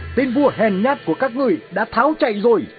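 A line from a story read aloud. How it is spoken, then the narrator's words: Shouting mid-battle. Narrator (Vietnamese): Alexander vừa đánh vừa hét lớn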